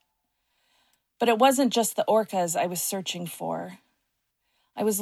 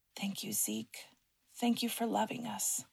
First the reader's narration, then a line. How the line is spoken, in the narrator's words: whispered